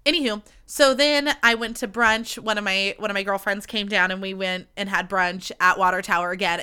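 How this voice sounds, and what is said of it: Slightly nasal, congested voice. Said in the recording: “I'm getting allergies. My allergies are coming back, so I sound a little nasally”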